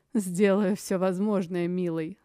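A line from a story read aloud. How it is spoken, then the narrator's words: Chuckling woman. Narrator (Russian): хохотнула женщина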